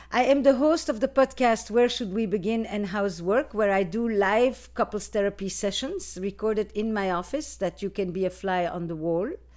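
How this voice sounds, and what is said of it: Flemish Belgian accent. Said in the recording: “I am from Belgium originally, in case you want to know about my accent ... I'm from the Flemish part of Belgium”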